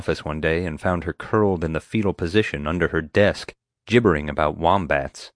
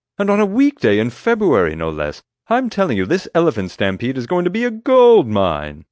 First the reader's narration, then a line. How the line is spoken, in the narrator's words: exclaimed